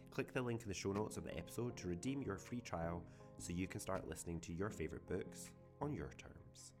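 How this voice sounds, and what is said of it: Put-on sexy male voice. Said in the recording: “a man's sexy voice”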